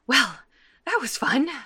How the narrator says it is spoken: Adora says breathlessly

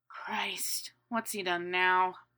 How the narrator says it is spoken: Sirius asked, his tone even more weary and tired

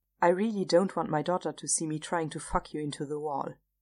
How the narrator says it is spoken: Chris said dryly

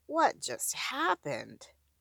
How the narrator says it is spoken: Veronica mutters faintly

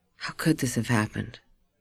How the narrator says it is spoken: Linda added in a whisper

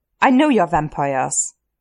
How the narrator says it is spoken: he snarls

